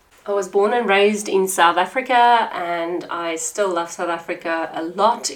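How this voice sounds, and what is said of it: South African accent. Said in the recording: “I am South African, if you couldn't tell from my accent”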